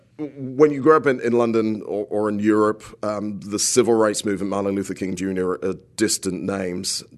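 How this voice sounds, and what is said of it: British accent. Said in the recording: “I grew up in the UK ... I thought I noticed something. ... He's not from around here. ... I'm trying to disguise the accent, not in the slightest bit, actually.”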